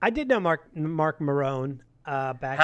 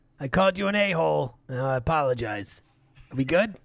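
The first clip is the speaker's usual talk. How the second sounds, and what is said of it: Imitates another person's voice. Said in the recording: “Good impression.”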